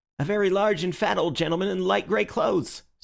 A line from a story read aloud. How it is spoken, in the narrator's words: said the keeper eagerly